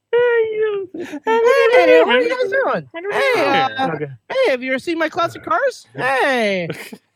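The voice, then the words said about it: Imitates another person's voice. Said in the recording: “doing a Jay Leno impression”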